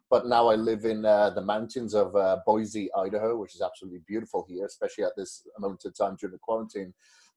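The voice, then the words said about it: Welsh accent. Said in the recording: “The weird accent that you hear is from Wales.”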